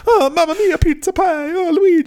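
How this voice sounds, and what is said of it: Exaggerated Italian accent, cartoon character voice. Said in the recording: “insulting Italian accent ... a Mario voice”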